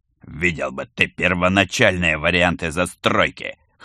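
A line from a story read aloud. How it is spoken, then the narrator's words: Wry snort. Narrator (Russian): хмыкнул жулик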